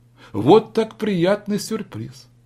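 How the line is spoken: Exclaiming. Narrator (Russian): воскликнул Галан

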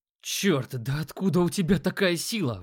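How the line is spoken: Breathless young man. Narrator (Russian): выдохнул парень

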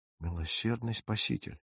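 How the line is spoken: Stunned mutter. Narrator (Russian): пробормотал я ошеломленно

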